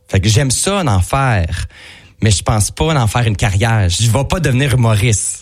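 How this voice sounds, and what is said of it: Regional Quebec French joual accent. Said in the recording (French): “j'ai un petit joual de région ... cet accent là”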